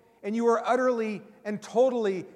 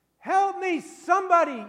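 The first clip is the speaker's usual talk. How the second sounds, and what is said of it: Yelling for help. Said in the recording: “You're yelling”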